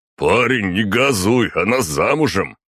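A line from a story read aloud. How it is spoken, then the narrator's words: Laughing guffaw. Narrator (Russian): хохотнул кто-то из отдыхающих ведьмаков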